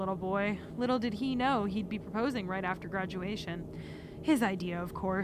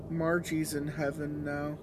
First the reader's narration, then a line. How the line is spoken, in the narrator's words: he said flatly